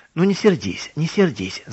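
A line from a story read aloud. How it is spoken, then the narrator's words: Laughing. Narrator (Russian): засмеялась фрау Кромер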